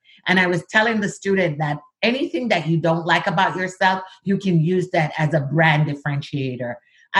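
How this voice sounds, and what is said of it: Jamaican accent, dropped H sounds. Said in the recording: “my accent ... be sure to pronounce that H that we drop as Jamaican”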